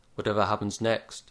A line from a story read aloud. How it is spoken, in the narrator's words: said Mr